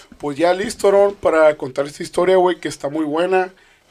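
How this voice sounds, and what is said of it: Hoarse, raspy voice. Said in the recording (Spanish): “ando un poquito ronco ... Todavía andas ronco ... se escuchaba bien sexy”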